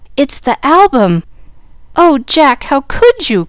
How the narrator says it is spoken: cried Jill, dismayed at the sight of the precious book so maltreated by the owner

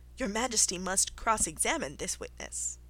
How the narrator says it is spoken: the white rabbit, who said, in a low voice

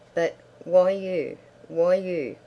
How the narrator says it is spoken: moaned Hammond

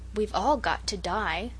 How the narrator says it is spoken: said Sarah Ray solemnly, but with a certain relish

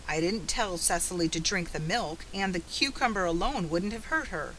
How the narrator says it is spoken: he grumbled

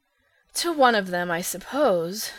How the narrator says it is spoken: sighed Phil

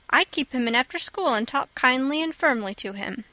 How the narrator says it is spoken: said Anne

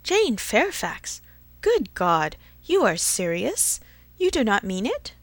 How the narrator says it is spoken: Emma with surprise, horror-struck, exclaimed

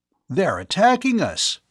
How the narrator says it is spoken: Bud cried out

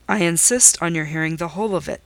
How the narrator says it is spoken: he replied

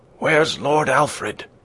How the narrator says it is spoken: one of the men bellowed in his ear

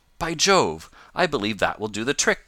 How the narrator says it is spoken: cried Tom

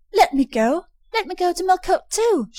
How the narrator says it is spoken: she cried

